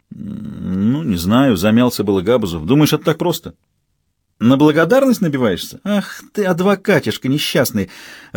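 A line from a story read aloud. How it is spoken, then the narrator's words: Laughing over the phone. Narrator (Russian): Рассмеялась в трубку неугомонная Карина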